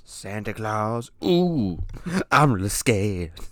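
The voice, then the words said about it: Santa Claus impression. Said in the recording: “That's a pretty good impersonation. ... I thought it was pretty shitty”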